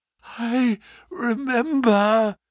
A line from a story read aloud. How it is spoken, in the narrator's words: Holmes gasped